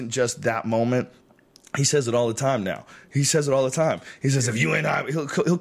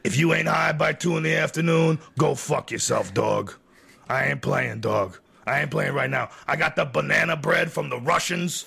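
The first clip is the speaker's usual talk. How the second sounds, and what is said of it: Impersonation of a friend's voice. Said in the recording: “your ideas and impersonation”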